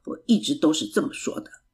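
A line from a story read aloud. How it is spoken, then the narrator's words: Muttering. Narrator (Chinese): 爸爸嘀咕着说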